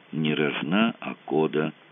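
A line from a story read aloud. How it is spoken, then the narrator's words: Calm. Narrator (Russian): спокойно сказал Мазур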